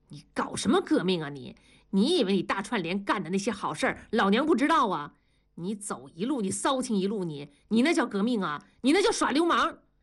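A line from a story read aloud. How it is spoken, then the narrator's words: Furious. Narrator (Chinese): 庄嫂怒火中烧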